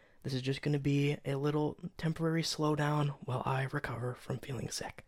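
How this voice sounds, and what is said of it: Rough, gross-sounding sick voice. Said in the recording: “me sounding like this. Yeah, I sound like this, by the way. I sound like a fucking gross old guy ... I'm sure you're not used to hearing me like this. All gross”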